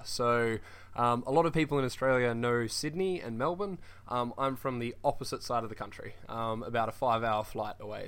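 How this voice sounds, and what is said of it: Australian accent. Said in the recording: “you have a wonderful accent ... I do have a bit of a different accent. I'm from Perth, Western Australia.”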